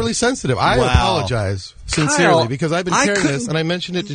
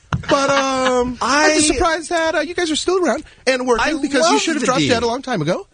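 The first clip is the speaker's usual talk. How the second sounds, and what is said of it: Imitates another person's voice. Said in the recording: “Is that impression of what he does every time?”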